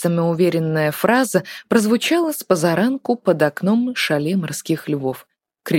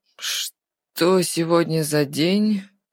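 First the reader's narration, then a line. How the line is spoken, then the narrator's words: Sleepy question. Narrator (Russian): Сонным голосом поинтересовался Артур у Тина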